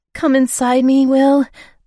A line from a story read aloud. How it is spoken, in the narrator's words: I begged